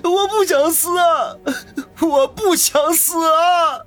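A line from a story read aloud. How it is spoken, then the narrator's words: Panicked wailing. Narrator (Chinese): 那家伙脸色大变，居然哇的一声哭了出来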